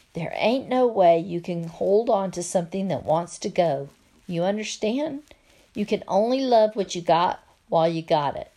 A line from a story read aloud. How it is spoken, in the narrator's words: She whispered in my ear